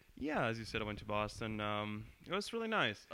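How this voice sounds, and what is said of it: Formal news-reporter-like delivery. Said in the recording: “You sound like a news reporter.”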